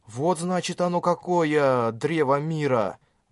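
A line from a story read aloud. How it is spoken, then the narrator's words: Reverent whisper. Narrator (Russian): Благоговейно прошептал Кирита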